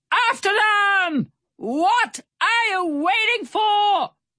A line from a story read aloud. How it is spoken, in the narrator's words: Barracuda Bill shouted from the railing